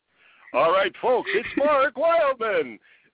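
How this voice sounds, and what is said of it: Announcer-style radio voice. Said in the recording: “I do have a radio voice ... Yes, you really do.”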